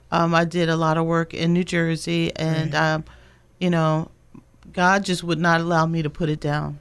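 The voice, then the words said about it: Slight New Jersey accent. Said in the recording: “I detect a little bit of that Jersey accent.”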